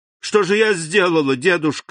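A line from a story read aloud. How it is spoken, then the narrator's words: Exclamation. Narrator (Russian): воскликнула Валентина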